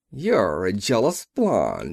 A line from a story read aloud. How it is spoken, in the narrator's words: he laughed